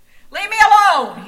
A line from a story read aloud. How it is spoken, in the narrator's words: shouted